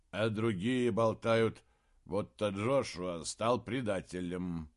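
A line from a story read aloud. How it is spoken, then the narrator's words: Sleepy mumble. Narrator (Russian): сонно пробормотал Шем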